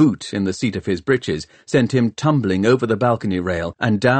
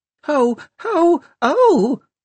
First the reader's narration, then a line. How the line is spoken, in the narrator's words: wailed Cortina Peavy, somewhere away to the left